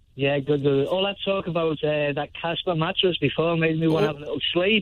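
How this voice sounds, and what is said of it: Liverpool Scouse accent. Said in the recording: “Liverpool ... You're a Scouse. You got a little bit of a Scouse accent.”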